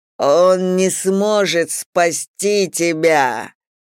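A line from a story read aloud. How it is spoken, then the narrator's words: Demonic growl through teeth. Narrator (Russian): прорычал демон сквозь кривые зубы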